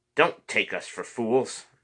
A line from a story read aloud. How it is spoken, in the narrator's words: the short one snarled